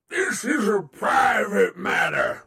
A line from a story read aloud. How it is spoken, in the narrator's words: Ares bellowed